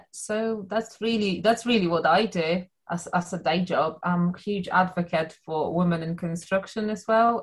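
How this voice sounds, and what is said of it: Non-British foreign accent. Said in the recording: “people can hear from your lovely accent, not originally from the UK”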